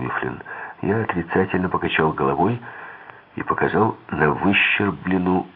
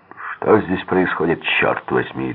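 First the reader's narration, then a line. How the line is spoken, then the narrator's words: Barked. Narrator (Russian): рявкнул МакГро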